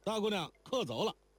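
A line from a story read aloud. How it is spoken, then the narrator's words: Calling upstairs. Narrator (Chinese): 那打更的伙计 不敢拦阻，只可向楼上喊道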